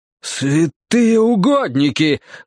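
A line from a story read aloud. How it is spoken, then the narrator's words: Exclaiming. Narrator (Russian): воскликнул Стемпер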